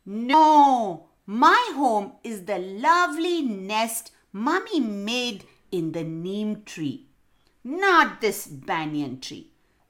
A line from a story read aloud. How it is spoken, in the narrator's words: screeched the green parrot